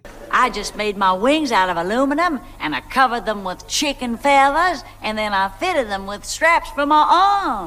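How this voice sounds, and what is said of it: Pretty bad put-on Southern accent. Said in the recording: “she was kind of doing a pretty bad Southern accent”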